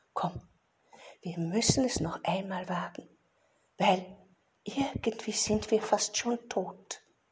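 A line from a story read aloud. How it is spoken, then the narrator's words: Exhausted fox whisper. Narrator (German): flüsterte eine Fuchs mit letzter Kraft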